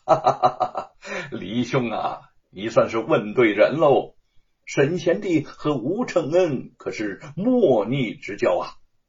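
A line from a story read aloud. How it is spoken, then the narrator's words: Laughing. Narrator (Chinese): 朱日帆在一旁笑道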